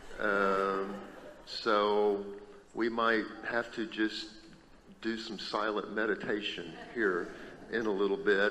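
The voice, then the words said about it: Hoarse, fading voice. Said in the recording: “I think I'm losing my voice.”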